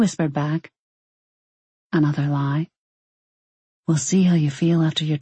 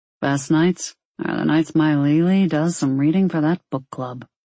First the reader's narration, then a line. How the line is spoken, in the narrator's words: Ollie muttered